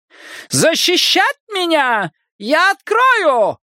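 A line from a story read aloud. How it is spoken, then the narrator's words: Shout. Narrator (Russian): крикнула Смильдрун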